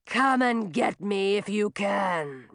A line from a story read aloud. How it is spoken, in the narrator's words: rumbled Millie